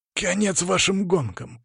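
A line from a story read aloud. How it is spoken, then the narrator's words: Growled. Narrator (Russian): прорычал Игнат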